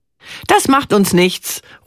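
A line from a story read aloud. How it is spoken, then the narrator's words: Calling out. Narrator (German): ruft sie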